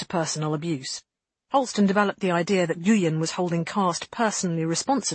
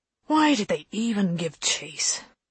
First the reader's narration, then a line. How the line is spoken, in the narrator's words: Holston asked Lane wearily, after this slanging match over the comms had finally defeated any possible chance of further sleep